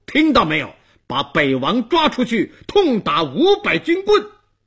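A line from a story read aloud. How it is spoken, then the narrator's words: Furious roar. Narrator (Chinese): 东王怒目圆睁，顿脚喝道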